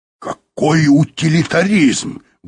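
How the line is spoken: Exclaiming. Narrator (Russian): воскликнул Юрковский

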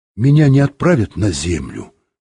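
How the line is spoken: Plain. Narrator (Russian): спросил Юра

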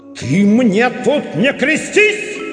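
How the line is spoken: Terrifying barked shout. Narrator (Russian): Страшным голосом гаркнул на него Момус

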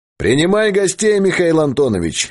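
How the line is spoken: Cheerful distant shout. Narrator (Russian): весело крикнул Богдан из коридора

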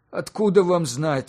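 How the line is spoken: Sigh. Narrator (Russian): вздохнул Петр Николаевич

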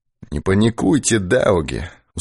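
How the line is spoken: Tired chuckle. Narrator (Russian): устало усмехнулся Ермаков

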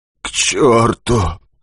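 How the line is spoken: Hoarse wheeze. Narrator (Russian): хрипит геолог

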